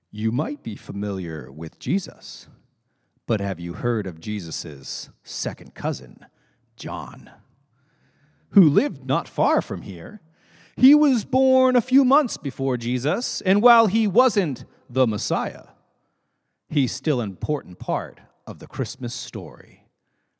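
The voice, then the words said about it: Dramatic narrator voice. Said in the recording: “in a very good narrator voice”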